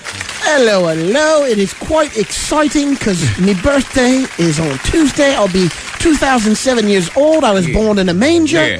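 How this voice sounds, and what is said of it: Put-on English accent. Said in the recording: “Why do you have an English accent?”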